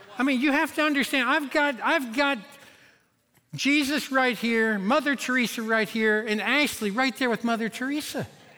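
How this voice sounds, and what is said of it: Kentucky country accent. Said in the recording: “my Kentucky accent ... a Kentucky country accent”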